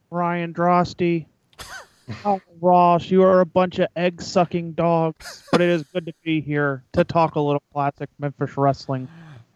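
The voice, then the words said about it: Imitates another person's voice. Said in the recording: “On point, Terry Funk impersonation. ... That was pretty good.”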